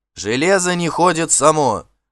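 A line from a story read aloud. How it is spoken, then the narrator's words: Curt, angry. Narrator (Russian): отрезал Хродмар, и его глаза сердито сузились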